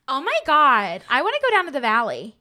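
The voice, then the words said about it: Attempted American valley accent. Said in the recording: “Try to do an American accent. ... Yeah, closer, yeah.”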